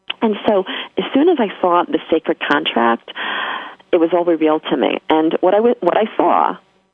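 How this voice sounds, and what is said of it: New York accent. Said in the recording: “Excuse my New York accent there.”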